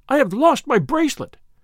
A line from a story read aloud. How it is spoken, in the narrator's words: she cried in Italian